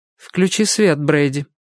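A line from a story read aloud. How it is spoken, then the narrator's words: Flat emotionless voice. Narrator (Russian): добавила Дебора все тем же бесстрастным голосом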